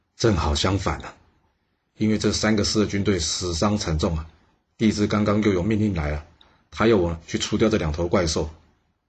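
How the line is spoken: Sighing. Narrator (Chinese): 姚却叹了一口气说

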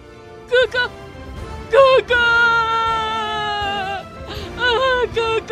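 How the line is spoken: Loud grief-stricken wailing. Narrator (Chinese): 他难过的放声大哭

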